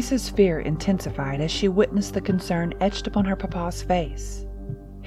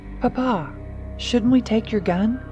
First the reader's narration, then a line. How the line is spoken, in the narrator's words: Teresa asked, her voice tinged with concern